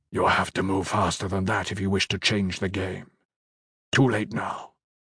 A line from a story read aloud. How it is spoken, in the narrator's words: whispered to Amazal